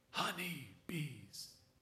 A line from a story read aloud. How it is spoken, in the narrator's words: he whispered